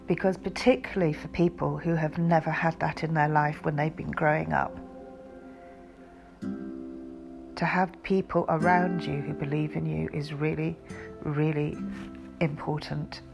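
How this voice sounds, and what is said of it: Voice sounds a bit emotional. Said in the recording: “if I'm sounding a bit emotional, it's because I am”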